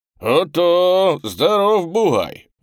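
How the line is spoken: Admiring exclamation. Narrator (Russian): восхищенно воскликнул раздевший меня казак

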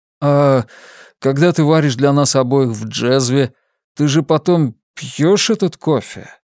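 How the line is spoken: Bewildered drawl. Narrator (Russian): растерянно протянул Хосе

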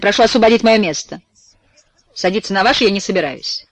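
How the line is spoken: Harsh, rude tone. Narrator (Russian): грубость мадам Эдмонд, которая вновь, появившись в салоне, говорит резким тоном, сверкая глазами

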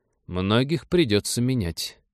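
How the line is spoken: Dry remark. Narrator (Russian): сухо заметил начальник СБ

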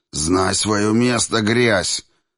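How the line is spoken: Opponent growling. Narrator (Russian): мой оппонент прорычал

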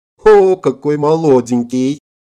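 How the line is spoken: Laughing loudly. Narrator (Russian): расхохоталась

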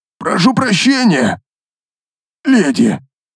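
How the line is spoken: Strained, forced out. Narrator (Russian): Последнее слово он выдавил из себя, явно с трудом

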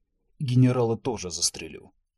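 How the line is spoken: Growled. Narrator (Russian): прорычал он

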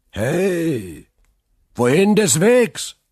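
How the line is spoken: Calling from nearby arbor. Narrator (German): rief eine Stimme aus der angrenzenden Laube des Wirtshauses

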